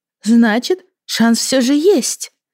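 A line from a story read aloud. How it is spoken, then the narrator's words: Triumphant. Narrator (Russian): сказала она торжествующим тоном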